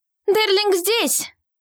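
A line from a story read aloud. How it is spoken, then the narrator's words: Female shout. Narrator (Russian): крикнула Елиоль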